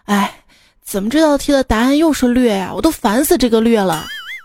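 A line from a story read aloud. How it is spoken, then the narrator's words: Sighing, young boy. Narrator (Chinese): 小正太……叹了一口气说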